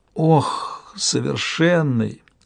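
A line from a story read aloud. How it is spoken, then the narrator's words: Muttered. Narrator (Russian): пробормотала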